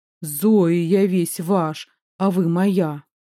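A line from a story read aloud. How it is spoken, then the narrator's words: Low hoarse voice. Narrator (Russian): скажет низким хриплым голосом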